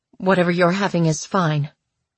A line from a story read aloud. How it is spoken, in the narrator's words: she said coldly